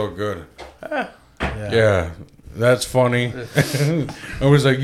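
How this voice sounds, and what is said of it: Usual voice. Nothing is said of it.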